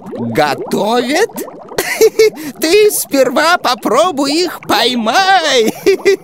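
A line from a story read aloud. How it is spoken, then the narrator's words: Giggling old woman. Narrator (Russian): Хихикнула старушка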